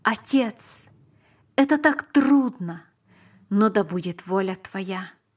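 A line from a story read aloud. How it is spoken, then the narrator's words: Exclaimed. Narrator (Russian): Он воскликнул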